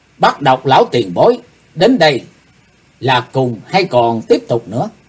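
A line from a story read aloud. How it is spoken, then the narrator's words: Loud reply. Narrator (Vietnamese): Bắt Độc Lão Ma to tiếng đáp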